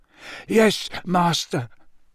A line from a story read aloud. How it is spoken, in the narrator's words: moaned Wormtail